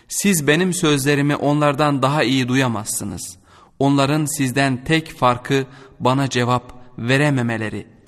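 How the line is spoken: Plain. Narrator (Turkish): dedi

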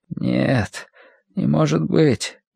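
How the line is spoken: Frowning mutter. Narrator (Russian): нахмурившись, пробормотал он

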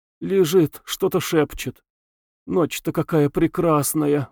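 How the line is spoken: Sighing. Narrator (Russian): вздохнув, сказала она Самгину

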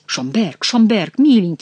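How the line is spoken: Exclamation. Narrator (Russian): воскликнул Генрих

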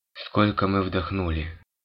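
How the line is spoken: Detached tone. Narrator (Russian): спросил он отрешенным тоном

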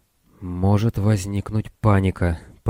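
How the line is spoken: Very quiet. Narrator (Russian): произнес капитан Армус столь тихим голосом, что услышать его мог только Дон

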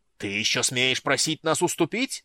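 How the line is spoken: Yelling priest. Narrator (Russian): заорал один из жрецов

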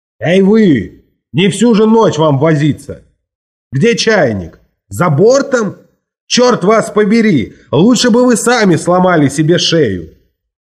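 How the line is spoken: Cook shouting. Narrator (Russian): повар уже кричал на меня из двери кухни

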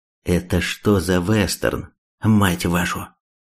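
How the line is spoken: Calm drawl through teeth. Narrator (Russian): Третьяк глубоко вздохнул и заговорил вполне спокойно, сквозь зубы, чуть растягивая слова

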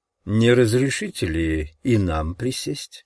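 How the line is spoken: Sarcastic question, old man. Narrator (Russian): спросил старый адвокат таким саркастическим тоном

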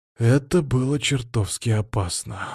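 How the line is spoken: Breathed out. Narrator (Russian): выдохнул я

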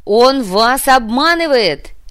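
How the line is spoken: Desperate shout. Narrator (Russian): в отчаянии закричала Милана

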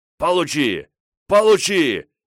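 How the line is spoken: Shouting. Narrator (Russian): закричал я

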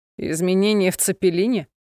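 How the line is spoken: Laughing. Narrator (Russian): засмеялся он

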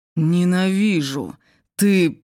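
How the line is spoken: Hiss. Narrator (Russian): разъяренное лицо парня он прошипел

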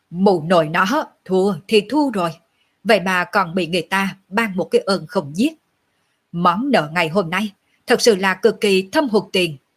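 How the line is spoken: Laughing loudly. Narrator (Vietnamese): Lệ Hồn Đồ cười to

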